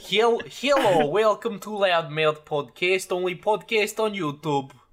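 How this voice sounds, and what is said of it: Bad put-on Russian accent. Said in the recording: “Bad Russian accent”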